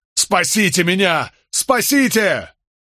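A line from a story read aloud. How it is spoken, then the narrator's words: Frantic full-throated yelling. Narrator (Russian): Болейн заорал во всю глотку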